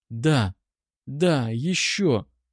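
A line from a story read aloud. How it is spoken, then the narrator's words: Whispering. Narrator (Russian): шептала она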